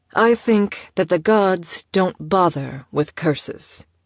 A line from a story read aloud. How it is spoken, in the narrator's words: Maya answered